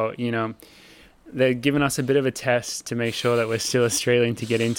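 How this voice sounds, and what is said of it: Usual voice. Nothing is said of it.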